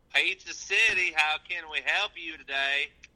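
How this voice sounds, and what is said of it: Put-on Southern accent. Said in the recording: “What accent is that? ... It's my pizza delivery voice, man. ... Have you ever even been to the South?”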